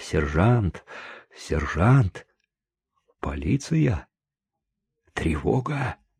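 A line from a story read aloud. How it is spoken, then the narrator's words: Quiet murmuring. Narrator (Russian): Чико ... тихо приговаривал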